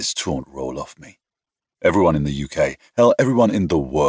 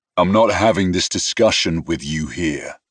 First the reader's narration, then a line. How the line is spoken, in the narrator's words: said icily